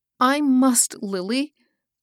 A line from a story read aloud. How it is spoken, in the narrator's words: sobbed Hilda